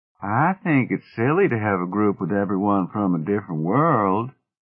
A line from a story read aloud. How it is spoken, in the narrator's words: said Eve Abderrahman of Iota, the other woman of the group, in a drawl so pronounced as to make her sound sleepy